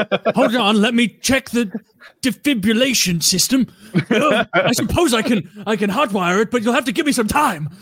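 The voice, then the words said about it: Old cartoon professor character voice. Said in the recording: “That's a good accent. ... the old guy from Futurama, like the main dude. ... the professor”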